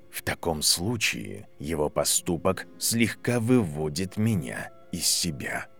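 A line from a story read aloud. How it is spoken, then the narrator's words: Quiet. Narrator (Russian): тихо сказал профессор Квирл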